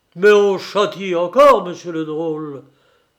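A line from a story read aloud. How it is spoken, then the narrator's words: Old man's scolding growl. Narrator (French): gronda le vieux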